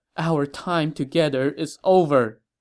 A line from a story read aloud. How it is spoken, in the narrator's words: The empress cried and said to the emperor